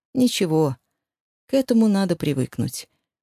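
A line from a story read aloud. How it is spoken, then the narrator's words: Sympathetic. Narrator (Russian): участливо сказал Рома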